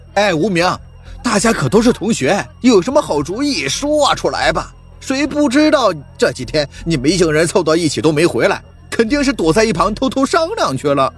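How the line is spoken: Loud male shout. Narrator (Chinese): 一个男生高声喊道

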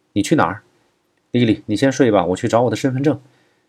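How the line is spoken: Calling out. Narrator (Chinese): 金丹丽叫住郭一成

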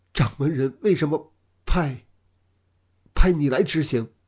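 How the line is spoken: Trembling voice. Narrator (Chinese): 那年轻人 面如死灰 颤声说道

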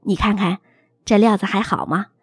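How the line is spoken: Meek, humble. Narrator (Chinese): 爸低声下气的递到妈面前说

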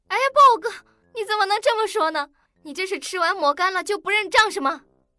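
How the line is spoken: Loud protesting. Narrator (Chinese): 金毛女却不依了，大声的说道

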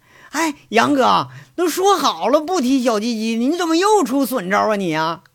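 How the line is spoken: Pained shout. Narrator (Chinese): 那小猴呲牙咧嘴的喊着

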